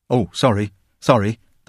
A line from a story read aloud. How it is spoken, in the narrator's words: the peasant said anxiously